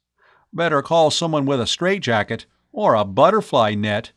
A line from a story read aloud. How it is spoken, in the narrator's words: he said, quaking with laughter